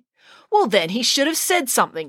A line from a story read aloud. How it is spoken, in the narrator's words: snapped April